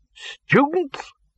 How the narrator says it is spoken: barked the Arch-Chancellor

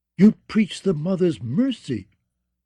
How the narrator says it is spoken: sputtered

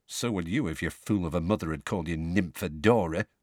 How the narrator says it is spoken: muttered Tonks

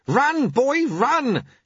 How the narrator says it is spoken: shouted Lutze

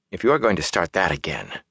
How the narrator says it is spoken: Matt muttered

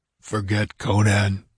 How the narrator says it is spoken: he said thickly

